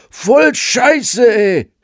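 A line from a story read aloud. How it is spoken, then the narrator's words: Child screaming. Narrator (German): schrie das Kind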